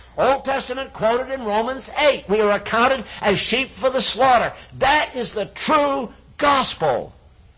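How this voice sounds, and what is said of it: Yelling, loud preaching voice. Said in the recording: “Why am I yelling?”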